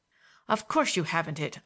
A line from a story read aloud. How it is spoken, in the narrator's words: I snapped, full of anger at his tone of irreproachable respect, and at my own helplessness